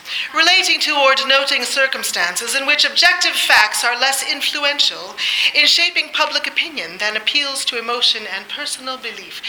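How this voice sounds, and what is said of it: Poor put-on English accent. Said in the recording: “in my best English accent ... Terrible. I'm not an actor.”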